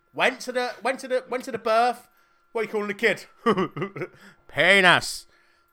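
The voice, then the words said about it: Weak put-on Irish accent. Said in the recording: “That was my best Irish accent there... I can't do an Irish accent”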